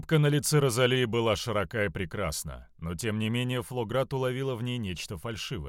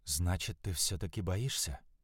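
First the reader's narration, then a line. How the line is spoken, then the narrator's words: Whispered. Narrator (Russian): прошептала Альвия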